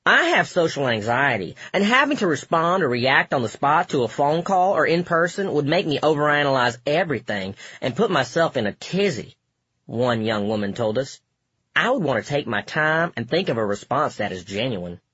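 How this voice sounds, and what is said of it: Put-on Southern accent. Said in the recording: “I don't remember if that woman was from the South, but I decided to do that accent because she used the word tizzy. In fact, I like that voice.”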